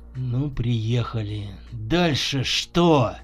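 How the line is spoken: Through gritted teeth. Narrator (Russian): Процедил Николай

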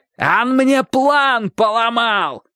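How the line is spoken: Shouting. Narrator (Russian): кричал Собаколов

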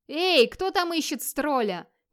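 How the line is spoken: Full-voiced shout. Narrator (Russian): крикнул Вигмар во весь голос

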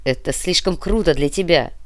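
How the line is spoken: Growl. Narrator (Russian): прорычал Дитрих

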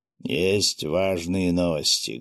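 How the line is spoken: Muffled voice. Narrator (Russian): глухим голосом произнес Виктор Харитонович

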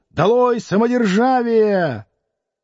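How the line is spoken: Two voices shouting together. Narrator (Russian): Двое студентов закричали в один голос

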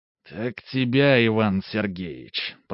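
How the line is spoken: Hissing. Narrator (Russian): прошипел Каримов

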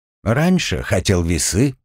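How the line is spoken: Calm reply. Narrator (Russian): спокойно отозвался Артем

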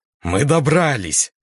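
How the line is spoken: Laughing. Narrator (Russian): Я засмеялся

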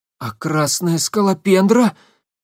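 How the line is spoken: Breathed out. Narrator (Russian): выдохнул

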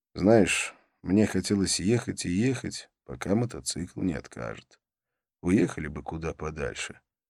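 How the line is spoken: Quiet. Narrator (Russian): негромко сказал

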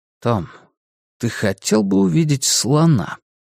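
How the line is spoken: Gentle question. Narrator (Russian): мягко спросил Стью

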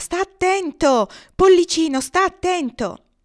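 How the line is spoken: Gander shouting. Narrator (Italian): Dietro di sé udiva la voce del papero che gridava

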